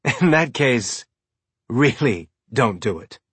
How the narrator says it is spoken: Faez said with a cynical laugh

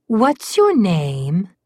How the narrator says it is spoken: the troll girl asked him in an airy and engaging voice

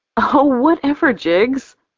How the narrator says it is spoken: I laugh

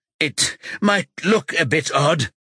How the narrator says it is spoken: he gasps, tasting blood in his mouth

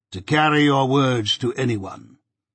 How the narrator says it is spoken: said he coolly

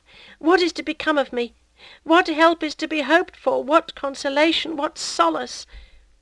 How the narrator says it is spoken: broken, breathless, inert, sobbing in a low voice with flowing tears

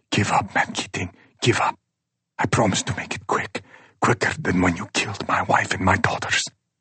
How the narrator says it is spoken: Asim whispers

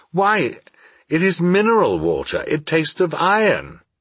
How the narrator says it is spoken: But after my first moment's delectation, I exclaimed

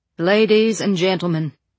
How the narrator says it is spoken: Dashmeel says in a carrying voice

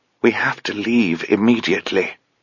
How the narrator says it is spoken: she whispered

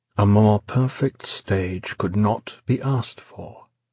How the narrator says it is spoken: he said softly, almost as if he too were enraptured by the setting

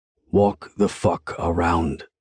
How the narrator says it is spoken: growls

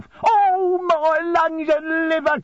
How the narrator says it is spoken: cried the old man

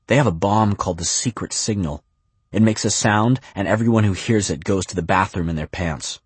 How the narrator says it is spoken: A boy blurts

